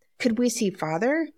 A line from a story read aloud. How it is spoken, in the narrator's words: Meg asked eagerly